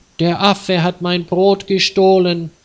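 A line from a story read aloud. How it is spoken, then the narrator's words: Loud crying. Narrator (German): Sie weinte laut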